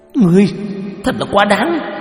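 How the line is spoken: Shouting. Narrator (Vietnamese): Cổ Kỳ Nguyệt quát lên

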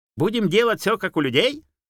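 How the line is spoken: Shrill jackal question. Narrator (Russian): визгливо спросил шакал

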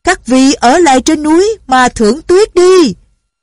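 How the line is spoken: Loud group shout. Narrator (Vietnamese): Quần hào lại lớn tiếng hô

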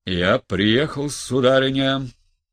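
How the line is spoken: Booming trumpet-like voice. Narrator (Russian): прогремел было он как в трубу

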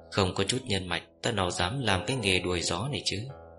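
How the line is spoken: Soft chuckle. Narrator (Vietnamese): Yến Tầm Đường khẽ bật cười

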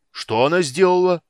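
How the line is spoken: Booming. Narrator (Russian): прогремел Карамон

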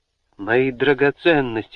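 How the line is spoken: Exclamation, woman. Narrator (Russian): воскликнула она

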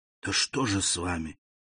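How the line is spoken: Whispered repetition. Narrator (Russian): шепотом повторил Дебре

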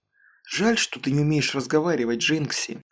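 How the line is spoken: Sighing. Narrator (Russian): вздохнула

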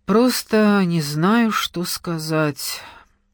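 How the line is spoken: Tired and sad. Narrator (Russian): устало и печально проговорил Денис

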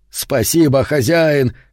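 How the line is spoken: Shouting. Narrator (Russian): кричал он

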